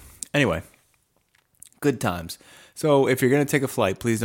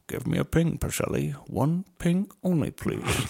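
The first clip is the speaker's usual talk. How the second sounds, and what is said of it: Imitates another person's Russian accent. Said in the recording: “That's his Russian accent.”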